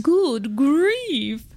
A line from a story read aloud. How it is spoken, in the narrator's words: groaned the ones who had stars at the first